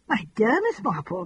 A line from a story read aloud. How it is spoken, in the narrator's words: cried the Colonel, horrified